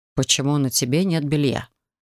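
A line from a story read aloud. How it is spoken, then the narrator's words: Calm. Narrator (Russian): Спокойно повторил Рид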